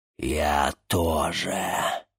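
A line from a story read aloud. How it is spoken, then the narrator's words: Hoarse demon declaring. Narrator (Russian): хрипло заявил демон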